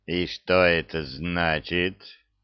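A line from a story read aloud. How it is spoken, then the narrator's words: Cold royal question. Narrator (Russian): холодно спросил его величество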